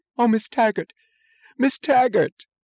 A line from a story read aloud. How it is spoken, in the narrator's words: said, in a joyous moan, the voice of the severe, unemotional Miss Ives